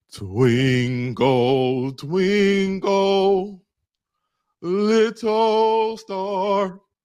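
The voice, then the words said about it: Mock opera singing voice. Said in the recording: “sing in your best opera voice ... This is terrible, by the way ... I can't do opera.”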